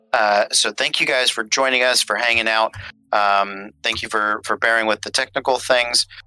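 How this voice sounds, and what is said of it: Radio DJ announcer voice. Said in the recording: “my DJ voice. I just realized I slipped into pretty hard”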